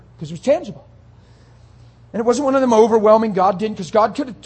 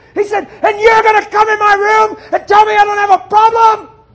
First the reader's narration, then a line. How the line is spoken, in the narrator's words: screaming at God like he's never screamed at a human being